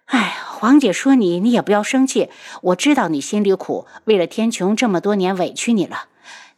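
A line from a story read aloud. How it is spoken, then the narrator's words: Sighing. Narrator (Chinese): 白锦最后叹了口气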